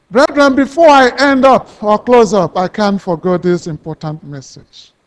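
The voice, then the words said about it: Noticeable accent, possibly hard to follow. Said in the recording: “Maybe you don't understand my accent. I can call a brother who can just say it out better than I do.”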